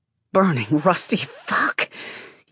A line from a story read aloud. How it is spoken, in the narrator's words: You groan, sigh